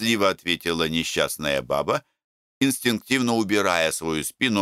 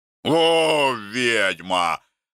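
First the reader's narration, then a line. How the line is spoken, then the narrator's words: Growl. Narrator (Russian): рычал Макар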